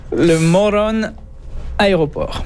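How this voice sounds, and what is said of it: Slight Spanish-style pronunciation. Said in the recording (French): “vous l'avez prononcé un petit accent, là. ... Ouais, à l'espagnol, là.”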